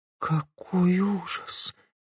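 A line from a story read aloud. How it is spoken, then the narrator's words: Soft whisper. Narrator (Russian): тихо прошептала Глория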